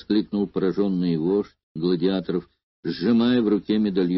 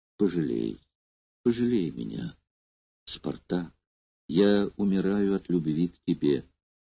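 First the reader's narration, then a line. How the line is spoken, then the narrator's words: Pleading whisper. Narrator (Russian): умоляюще прошептав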